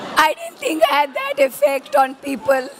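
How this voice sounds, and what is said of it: Hoarse, nearly lost voice. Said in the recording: “I can't say much today because I've lost my voice.”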